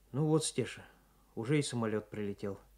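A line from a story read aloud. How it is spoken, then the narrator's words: Sad. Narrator (Russian): грустно сказал Николай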